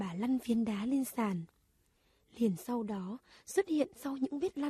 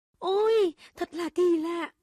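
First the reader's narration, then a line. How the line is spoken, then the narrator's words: Exclamation. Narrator (Vietnamese): Cậu cả kêu lên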